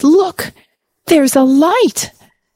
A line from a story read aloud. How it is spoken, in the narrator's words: exhausted by their efforts and the cold, Alia shouted